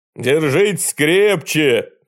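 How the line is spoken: Shouted. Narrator (Russian): крикнул Антютик

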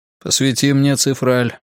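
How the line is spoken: Grumbling. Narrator (Russian): проворчал он

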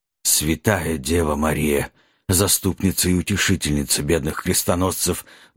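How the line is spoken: Muffled breathy murmur. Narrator (Russian): глухо выдохнул в темноту Нед Гамильтон

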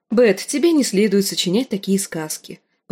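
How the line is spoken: Corrective tone. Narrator (Russian): поправила

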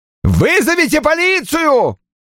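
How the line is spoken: Yelling. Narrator (Russian): орал Огден

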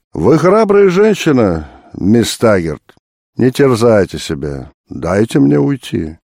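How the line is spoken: Gentle. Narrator (Russian): он ласково сказал

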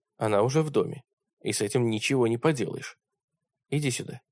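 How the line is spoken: Plain. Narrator (Russian): сказал я

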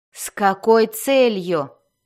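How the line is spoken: Growled. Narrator (Russian): прорычала Бриза

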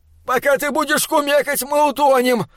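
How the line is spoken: Dwarves yelling in unison, loudly. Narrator (Russian): в один голос завопили карлики поверх рева вод

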